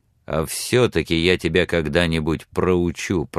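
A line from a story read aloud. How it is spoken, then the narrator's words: Spoken through gritted teeth. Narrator (Russian): проговорил сквозь зубы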